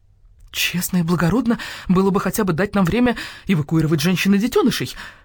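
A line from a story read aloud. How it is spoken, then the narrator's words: Exclaimed. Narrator (Russian): воскликнул Барсукот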